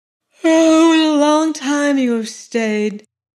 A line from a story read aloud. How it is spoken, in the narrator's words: said she, yawning